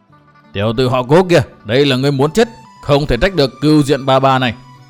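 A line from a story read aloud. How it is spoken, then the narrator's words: Furious old woman shouting. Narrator (Vietnamese): Lão bà tóc bạc tức đến mửa máu, giận dữ quát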